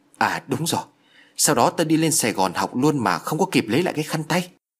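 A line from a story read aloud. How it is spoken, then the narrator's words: Excited exclamation. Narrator (Vietnamese): reo lên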